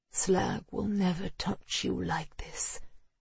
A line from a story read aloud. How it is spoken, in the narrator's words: murmured